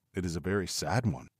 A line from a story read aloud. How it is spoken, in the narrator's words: murmured, scarcely knowing what to answer